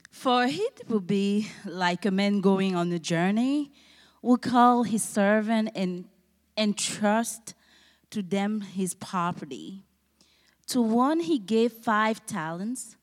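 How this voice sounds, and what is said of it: Cameroonian-accented English. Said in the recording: “I'm from Cameroon ... Excuse my accent.”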